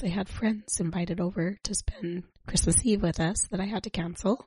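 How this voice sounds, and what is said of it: Voice not at full strength. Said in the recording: “as you can tell, my voice is not at 100%”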